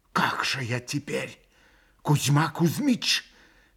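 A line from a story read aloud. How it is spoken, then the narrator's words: Mumbled, faint smile. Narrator (Russian): пробормотал он, бледно улыбаясь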